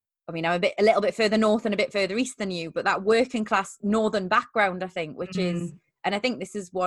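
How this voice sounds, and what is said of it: Usual voice. Nothing is said of it.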